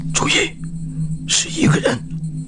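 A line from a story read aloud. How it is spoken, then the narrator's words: Whispering. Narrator (Chinese): 白婷小声说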